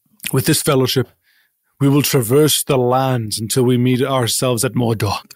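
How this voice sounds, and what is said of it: Hokey put-on medieval accent. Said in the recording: “Are you doing an accent of some kind?... affecting a certain kind of... medieval, like you're being a little hokey”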